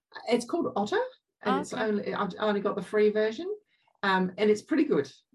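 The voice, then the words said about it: English accent. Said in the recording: “my English accent”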